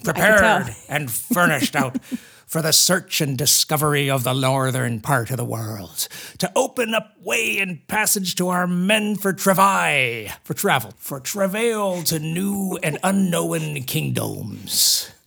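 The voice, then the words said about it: Pirate accent while reading aloud. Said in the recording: “with your accent ... how does a pirate say travel?”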